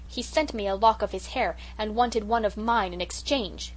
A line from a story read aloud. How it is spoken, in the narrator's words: continued Cecily indignantly